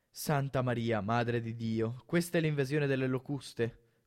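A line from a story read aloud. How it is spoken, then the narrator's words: Horrified mumbling. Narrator (Italian): farfugliò inorridito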